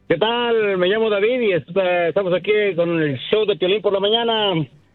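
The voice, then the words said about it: Radio announcer voice. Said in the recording (Spanish): “tiene voz de locutor”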